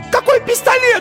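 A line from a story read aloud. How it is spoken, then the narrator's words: Shrieked. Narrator (Russian): взвизгнула Ирина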